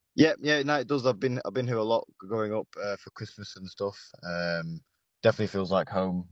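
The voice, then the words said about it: British accent. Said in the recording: “You've picked up the British accent.”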